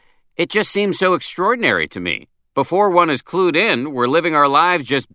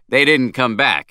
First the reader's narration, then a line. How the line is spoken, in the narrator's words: he said, laughing